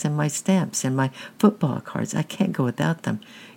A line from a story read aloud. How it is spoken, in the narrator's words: pleaded Francis